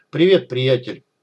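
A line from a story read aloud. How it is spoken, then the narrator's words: Gruff mutter. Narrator (Russian): буркнул док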